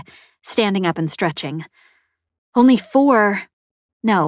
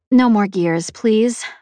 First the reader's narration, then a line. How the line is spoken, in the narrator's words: I replied